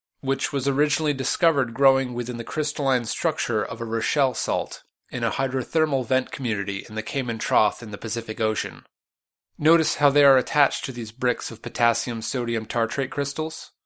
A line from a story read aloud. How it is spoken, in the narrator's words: Ma'at relaxed and continued